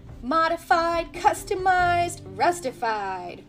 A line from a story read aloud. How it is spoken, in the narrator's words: Rusty exclaimed proudly